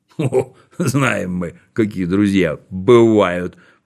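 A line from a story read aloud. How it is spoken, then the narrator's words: Grumbling baker. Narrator (Russian): проворчал пекарь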